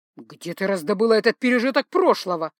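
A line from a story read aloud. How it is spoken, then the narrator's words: Angry growl. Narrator (Russian): прорычал он, становясь сердитым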